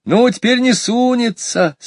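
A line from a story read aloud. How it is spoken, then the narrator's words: Laughing. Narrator (Russian): смеялся Ваня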